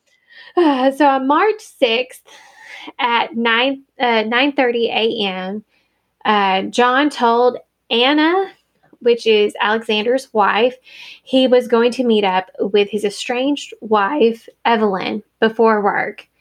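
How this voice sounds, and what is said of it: Strained, fading voice. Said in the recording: “I'm starting to lose my voice.”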